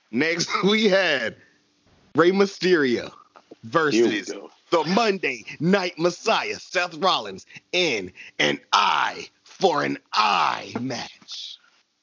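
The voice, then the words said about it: Dramatic announcer-style voice. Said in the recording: “dramatic voice”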